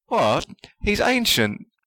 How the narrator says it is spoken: Ron exclaimed

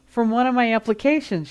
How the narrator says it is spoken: she said, her voice shaking a little

